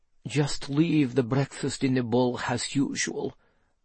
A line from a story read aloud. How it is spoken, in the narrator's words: muttered Nightshade